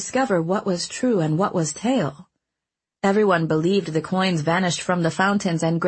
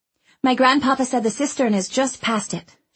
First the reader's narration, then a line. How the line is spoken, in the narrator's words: she said eagerly